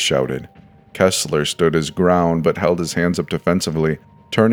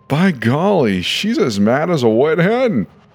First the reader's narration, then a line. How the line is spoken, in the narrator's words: he laughed